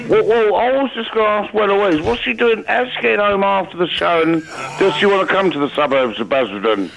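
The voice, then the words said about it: Drunken-sounding impression of another person. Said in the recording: “Who's been impersonating an Andre?... You can get done for being drunk in charge of an Andre”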